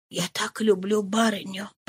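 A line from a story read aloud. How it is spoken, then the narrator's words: Whisper. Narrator (Russian): прошептала Зоя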